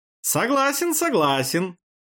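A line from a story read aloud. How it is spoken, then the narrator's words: Giggling agreement. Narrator (Russian): хихикнув, подхватил Мюнивари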